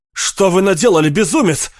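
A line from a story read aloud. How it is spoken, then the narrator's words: Shout. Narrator (Russian): крикнул Карл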